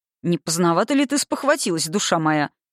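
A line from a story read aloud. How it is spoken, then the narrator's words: Amused snort. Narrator (Russian): хмыкнул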